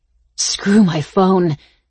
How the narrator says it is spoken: I grunted

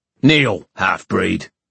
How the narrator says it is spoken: snapped one of the guards

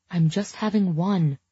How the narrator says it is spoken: I said under my breath

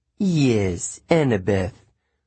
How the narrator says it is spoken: the woman purred

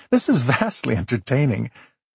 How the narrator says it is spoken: Laughing, Nora said

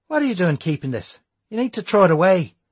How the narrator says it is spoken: snapped Declan

